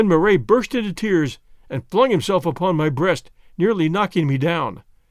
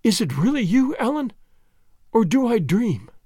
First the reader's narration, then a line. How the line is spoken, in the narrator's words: she murmured